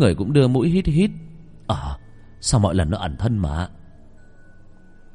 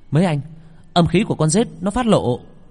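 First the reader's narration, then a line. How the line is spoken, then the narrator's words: Shout. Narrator (Vietnamese): Vị thiên sư lúc này la lên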